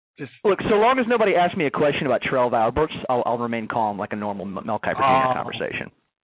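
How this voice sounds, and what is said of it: Southern New Orleans and North Carolina accent. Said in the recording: “radio voice would sound, bringing the kind of southern New Orleans, you know, with North Carolina accent mixed with a little 8 years in Chicago ... you sound remarkably like Mel Kiper Jr.”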